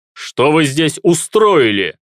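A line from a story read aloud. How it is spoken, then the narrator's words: Emperor shouting. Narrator (Russian): закричал император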